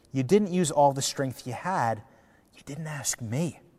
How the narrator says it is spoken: the father corrected kindly

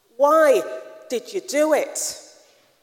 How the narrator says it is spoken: They groaned

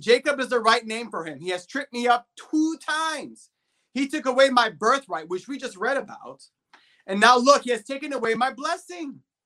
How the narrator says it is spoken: exclaimed

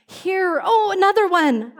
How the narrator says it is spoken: I wailed

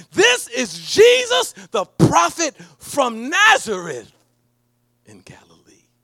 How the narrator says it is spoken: the crowds hollered back

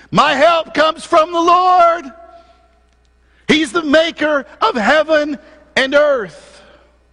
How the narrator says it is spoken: Surrounded by danger, the worshipers of God shouted defiantly to the hills

